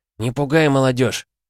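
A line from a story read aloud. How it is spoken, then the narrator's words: Reproachful grumble. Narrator (Russian): проворчал Валера с укором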